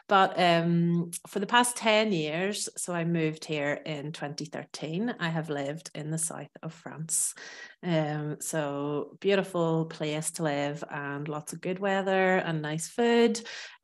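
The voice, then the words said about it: Irish accent. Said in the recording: “I am originally from Ireland, as you might hear from my accent.”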